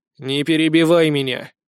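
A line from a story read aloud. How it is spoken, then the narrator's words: Stern command. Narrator (Russian): строго приказал ей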